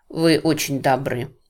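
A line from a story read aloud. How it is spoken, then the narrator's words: Plain. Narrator (Russian): сказала Люси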